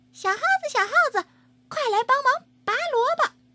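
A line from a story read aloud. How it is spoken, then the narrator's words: Calling out. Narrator (Chinese): 小花猫喊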